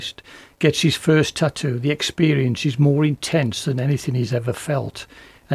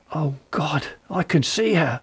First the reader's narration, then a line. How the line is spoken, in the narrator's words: The man gasped